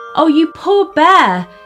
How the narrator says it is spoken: cried their mother

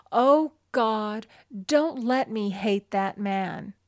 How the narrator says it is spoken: She felt hatred and resentment taking complete possession of her, and she cried out

